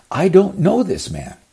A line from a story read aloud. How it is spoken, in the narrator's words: Peter shouted